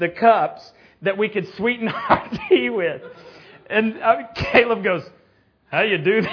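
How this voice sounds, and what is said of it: Usual voice. Nothing is said of it.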